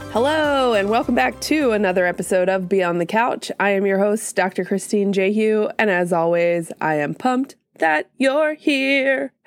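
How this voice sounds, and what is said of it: Congested, slightly odd-sounding voice. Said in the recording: “I'm getting over a sinus infection situation, so my voice sounds a little weird today.”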